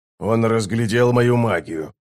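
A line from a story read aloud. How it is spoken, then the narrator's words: Grumbled. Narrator (Russian): буркнул Оцелот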